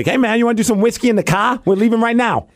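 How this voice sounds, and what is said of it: Boston accent impression. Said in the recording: “my only Boston impression”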